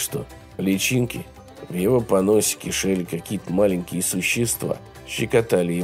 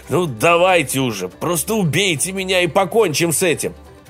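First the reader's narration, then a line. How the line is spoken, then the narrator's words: Shouted, half-drowned. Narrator (Russian): его вытащили за секунду до того, как он был готов захлебнуться, и закричал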